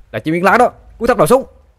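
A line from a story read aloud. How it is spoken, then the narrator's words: Exclaiming. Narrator (Vietnamese): Sinh kêu lên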